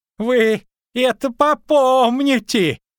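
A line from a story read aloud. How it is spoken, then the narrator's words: Shouted. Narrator (Russian): крикнул он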